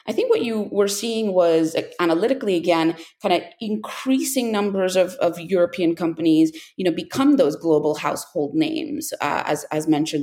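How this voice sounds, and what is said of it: American accent. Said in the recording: “you can hear the American accent in my voice”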